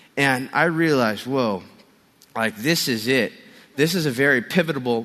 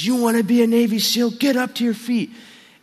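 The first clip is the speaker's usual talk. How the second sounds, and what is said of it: Screamed drill-instructor line. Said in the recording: “he's screaming in my face”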